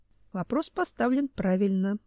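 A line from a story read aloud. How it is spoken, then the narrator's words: Sad wry chuckle. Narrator (Russian): грустно усмехнулся Семен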